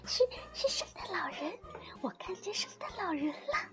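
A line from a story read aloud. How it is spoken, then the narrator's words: Low murmur to self. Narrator (Chinese): 小熊低声的对自己说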